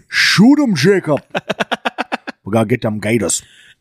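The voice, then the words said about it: Put-on Louisiana swamp accent. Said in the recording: “I do a Louisiana accent, but it's from the movie, the show Swamp People.”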